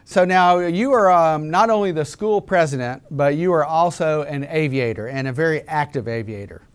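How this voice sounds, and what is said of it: Southern American accent. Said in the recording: “you can probably tell from my accent that I'm from the South”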